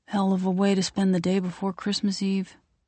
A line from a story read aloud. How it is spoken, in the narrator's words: sighs deeply